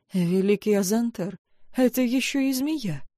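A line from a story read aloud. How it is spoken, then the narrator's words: Squeaky young woman's voice. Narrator (Russian): пискнула одна из конкурсанток, самая молоденькая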